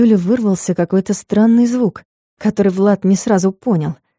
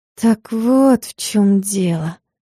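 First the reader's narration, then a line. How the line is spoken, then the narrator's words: Drawn-out, disappointed. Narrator (Russian): протянула она разочарованно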